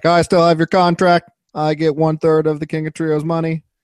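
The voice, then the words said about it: Imitates another person's voice. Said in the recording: “I like your impression there. That was well done.”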